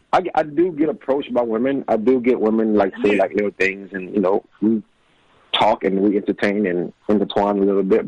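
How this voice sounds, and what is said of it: Southern US accent. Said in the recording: “you got that southern accent ... I'm from New Orleans, Louisiana.”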